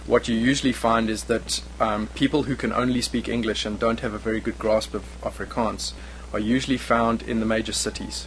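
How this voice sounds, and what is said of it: South African English, Afrikaans-tinged accent. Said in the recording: “my accent has been tinged by a number of these different regions around the country... My accent is also very much tinged by the fact that Afrikaans is still a fairly predominant language in South Africa”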